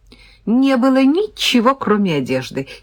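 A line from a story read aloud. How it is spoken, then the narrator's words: Giggling. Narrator (Russian): хихикнул парень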